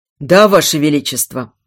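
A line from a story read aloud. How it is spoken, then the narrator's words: Muffled, dull. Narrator (Russian): глухо подтвердил приказ капитан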